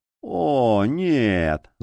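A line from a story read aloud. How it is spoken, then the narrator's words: Groaning. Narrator (Russian): застонал гримуар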